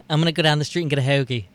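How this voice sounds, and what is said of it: Put-on Philly accent. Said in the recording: “Do your best Philly accent”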